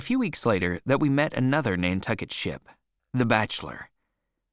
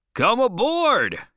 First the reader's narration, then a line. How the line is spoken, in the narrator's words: cried the Bachelor's captain